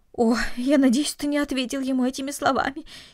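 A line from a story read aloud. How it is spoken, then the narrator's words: Frightened woman. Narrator (Russian): испуганно произнесла мать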